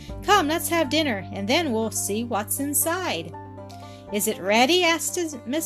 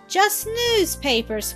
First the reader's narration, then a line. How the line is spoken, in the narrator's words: cried Don in a tone of bitter disappointment